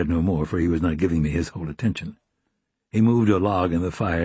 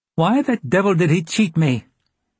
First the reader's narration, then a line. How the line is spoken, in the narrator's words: he demanded in his high, strident voice